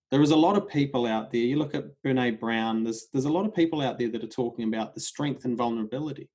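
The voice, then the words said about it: Speaks with a noticeable accent. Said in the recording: “That's my accent, sorry.”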